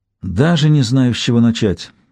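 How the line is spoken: Sigh. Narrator (Russian): вздохнула

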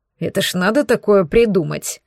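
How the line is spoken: Grumbling. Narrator (Russian): проворчал Мада

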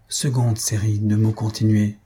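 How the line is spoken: Low voice. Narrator (French): dit-il à voix basse

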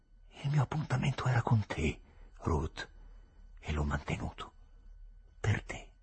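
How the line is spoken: Murmured. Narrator (Italian): mormorò

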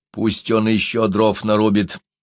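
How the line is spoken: Plain. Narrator (Russian): сказал Бичинга

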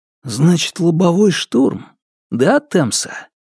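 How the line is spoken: Whisper. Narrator (Russian): шепнул я

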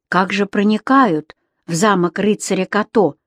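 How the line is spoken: Quiet question. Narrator (Russian): тихонько спросил Юм-Юм

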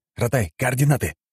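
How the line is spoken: Growled. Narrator (Russian): прикрыв телефон ладонью, рыкнул я

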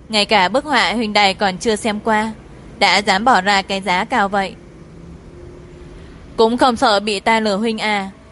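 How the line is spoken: Smiling. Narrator (Vietnamese): Thẩm Gia Cẩm mỉm cười

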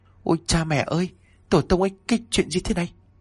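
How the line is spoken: Trembling, talking to himself. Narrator (Vietnamese): Hắn run rẩy nói một mình

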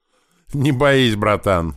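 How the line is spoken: Laughing. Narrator (Russian): засмеялся маленький

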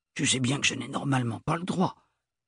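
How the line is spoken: Old man mumbling. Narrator (French): marmonna le grand-oncle avec un froissement de moustache

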